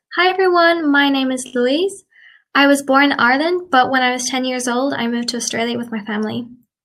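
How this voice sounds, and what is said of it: Mixed Irish and Australian accent. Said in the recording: “my accent is kind of neutral. It's not completely Australian, but also not completely Irish.”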